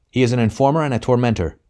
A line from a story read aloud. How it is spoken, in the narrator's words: broke in Anthony harshly